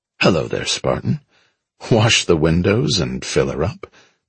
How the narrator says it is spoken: the taller of them said with a wry chuckle

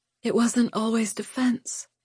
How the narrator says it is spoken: Lou whispered

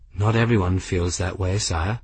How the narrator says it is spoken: Benedict said quietly

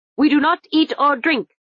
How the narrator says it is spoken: snapped Mr

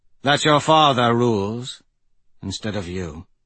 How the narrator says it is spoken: he said, and then gave a wistful sigh

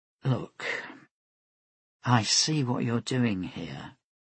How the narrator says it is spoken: said gently

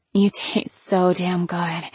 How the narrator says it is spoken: moaned

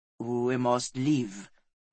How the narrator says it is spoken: said the man on the black gelding, his voice deep

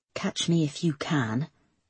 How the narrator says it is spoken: she murmured

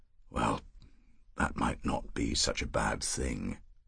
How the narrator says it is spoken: Paris said rather faintly

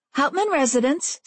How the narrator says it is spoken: said Jessie cheerfully

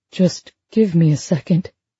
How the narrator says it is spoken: he said faintly

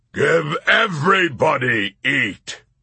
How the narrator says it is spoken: with righteous belligerence, he roared

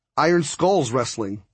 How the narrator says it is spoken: Hondo said

